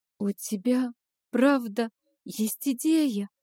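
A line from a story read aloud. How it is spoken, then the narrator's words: Timid clarifying question. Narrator (Russian): робко уточнила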